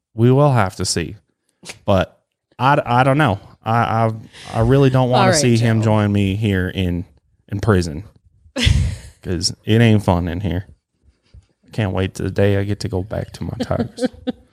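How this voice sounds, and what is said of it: Put-on character accent. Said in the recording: “that accent”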